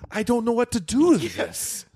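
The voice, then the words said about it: Put-on old Jewish grandpa voice. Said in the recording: “like an old Jewish grandpa ... Is that your Jewish accent? What the hell is that?”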